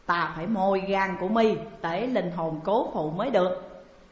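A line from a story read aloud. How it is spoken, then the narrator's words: Harsh, gritted voice. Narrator (Vietnamese): Cam Tử Long gằn giọng bảo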